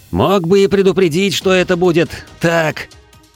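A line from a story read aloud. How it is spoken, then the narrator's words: Yelling. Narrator (Russian): орал я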